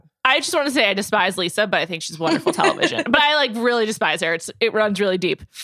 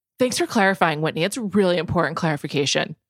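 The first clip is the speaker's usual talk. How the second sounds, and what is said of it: Imitates another person's voice. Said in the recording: “my Lisa Barlow impression ... That was actually good. The tone.”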